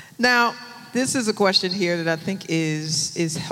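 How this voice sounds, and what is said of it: Usual voice. Nothing is said of it.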